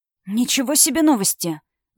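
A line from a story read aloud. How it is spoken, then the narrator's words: Whisper. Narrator (Russian): зашептал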